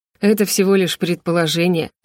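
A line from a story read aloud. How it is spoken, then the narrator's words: Dismissive snort. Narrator (Russian): отмахнулся Райлан, хмыкнув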